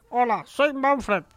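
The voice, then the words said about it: Weird cartoon character voice. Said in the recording (Spanish): “poner una voz rara para un bono animado ... hablar así”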